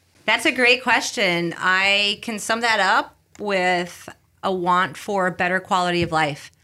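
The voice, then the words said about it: Slight Bronx New York accent. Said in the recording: “you're from the Bronx originally... I've worked quite a bit on my accent, but a little bit still there”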